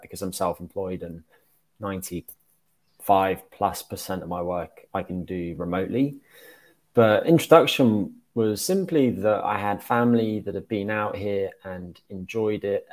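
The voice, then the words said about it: British accent. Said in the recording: “you're based in the UK, I'm guessing still based on the accent. I mean, it doesn't sound like that's been washed away at all.”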